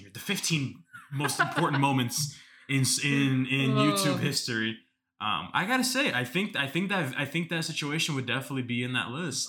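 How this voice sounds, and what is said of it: Bill Simmons impression. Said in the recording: “do my best Bill Simmons impression”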